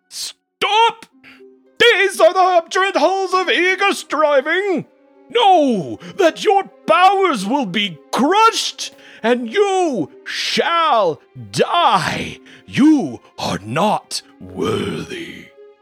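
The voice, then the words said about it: Booming giant-mouth voice. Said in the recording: “in this booming voice”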